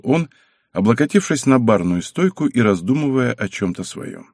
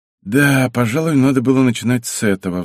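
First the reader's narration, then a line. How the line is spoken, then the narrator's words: Sigh. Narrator (Russian): вздохнул Алвир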